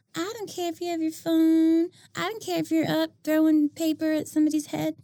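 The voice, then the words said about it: Timid teacher voice. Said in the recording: “Is that your teacher voice? ... She transformed into a whole different person. ... that was my like timid teacher voice that wants to be liked.”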